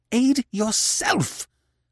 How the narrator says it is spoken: she cried fiercely

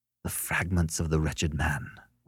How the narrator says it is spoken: whispered Beverly

